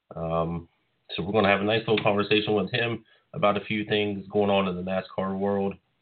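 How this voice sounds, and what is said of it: Voice in poor shape. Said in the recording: “As you can probably tell, my voice is not exactly the best”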